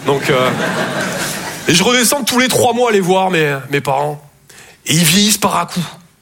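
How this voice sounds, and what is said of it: Slight Toulouse southern French accent. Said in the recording (French): “Je viens de Toulouse à la base. Ouais, ça s'entend un peu... mon accent”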